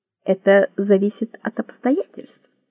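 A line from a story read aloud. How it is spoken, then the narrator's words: Plain. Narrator (Russian): сказал он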